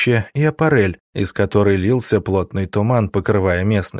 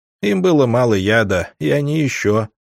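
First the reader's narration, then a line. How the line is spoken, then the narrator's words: Plain. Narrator (Russian): ответили мне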